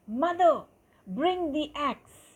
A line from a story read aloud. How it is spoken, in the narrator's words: he shouted